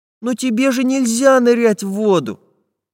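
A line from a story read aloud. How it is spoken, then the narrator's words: Sad. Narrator (Russian): печально произнес Чижик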